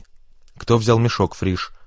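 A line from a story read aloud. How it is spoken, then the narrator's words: Stern question. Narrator (Russian): строго спросил Вовкин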